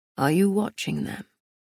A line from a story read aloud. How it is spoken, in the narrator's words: Castile asked, his voice full of smoke